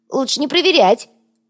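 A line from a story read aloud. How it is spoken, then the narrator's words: Squeak. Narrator (Russian): пискнул Йога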